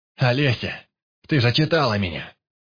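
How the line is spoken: Shouted. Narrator (Russian): закричал Баркас

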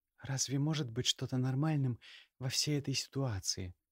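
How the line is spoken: Quiet. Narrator (Russian): тихо ответила она

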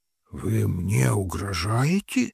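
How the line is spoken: Hoarse growl. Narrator (Russian): севшим голосом прорычал офицер

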